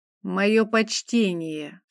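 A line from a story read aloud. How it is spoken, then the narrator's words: Hateful hiss through teeth. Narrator (Russian): сквозь зубы прошипел, с ненавистью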